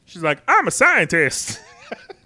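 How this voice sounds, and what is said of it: Imitates a movie character's voice. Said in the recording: “my dead on uh, uh, Hope Van Dyne impersonation.”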